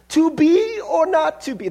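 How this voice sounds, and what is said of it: Failed attempt at British accent. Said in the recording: “should I try to do a British accent? ... That's not a British accent. I don't know what that is.”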